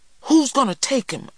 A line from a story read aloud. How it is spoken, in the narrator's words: I cried